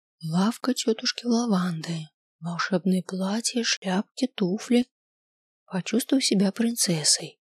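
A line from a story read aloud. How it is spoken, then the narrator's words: Whispered reading. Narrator (Russian): прочитала шепотом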